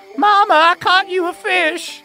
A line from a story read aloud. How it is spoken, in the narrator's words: He shouts